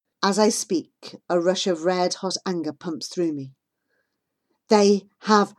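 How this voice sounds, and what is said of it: Usual voice. Nothing is said of it.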